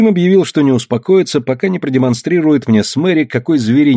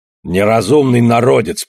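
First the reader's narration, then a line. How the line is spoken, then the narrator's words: Grumbling. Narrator (Russian): проворчал он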